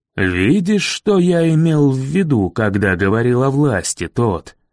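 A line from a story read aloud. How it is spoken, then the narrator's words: Plain. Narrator (Russian): сказал мэр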